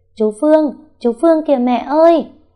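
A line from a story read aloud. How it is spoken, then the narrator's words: Excited child's shout. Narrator (Vietnamese): thằng Bi hét la lên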